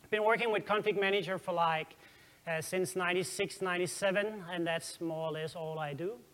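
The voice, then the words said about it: Danish-accented English. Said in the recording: “If you think my accent is funny ... I'm from Denmark”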